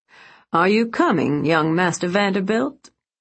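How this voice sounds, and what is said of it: Southern accent. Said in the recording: “he asked encouragingly in his southern accent.”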